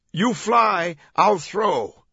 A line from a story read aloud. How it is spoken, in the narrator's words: Langdon barked